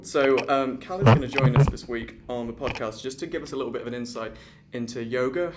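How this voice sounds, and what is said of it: English Worcester regional accent. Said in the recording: “forgive my Worcester accent because I say my A's like Cal instead of Kel.”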